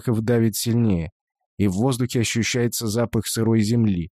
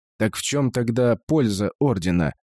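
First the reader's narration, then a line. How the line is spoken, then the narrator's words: Angry, close to the ear. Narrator (Russian): зло бросает Шорохов, наклоняясь к самому уху Вари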